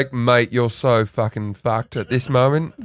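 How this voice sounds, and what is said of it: Put-on British accent. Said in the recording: “Sometimes I talk in a British accent.”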